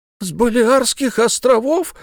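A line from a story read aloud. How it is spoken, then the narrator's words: Exclaimed. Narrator (Russian): воскликнул тот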